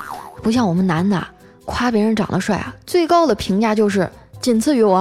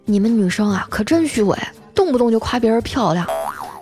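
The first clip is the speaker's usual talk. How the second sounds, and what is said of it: Quiet, soft-spoken line. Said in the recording (Chinese): “小声的说”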